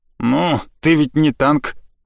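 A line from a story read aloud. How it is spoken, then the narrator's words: Snorting. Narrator (Russian): фыркнула блоха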